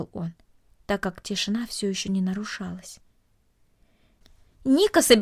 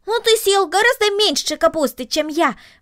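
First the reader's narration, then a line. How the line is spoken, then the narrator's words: Exclaiming. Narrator (Russian): воскликнул Макс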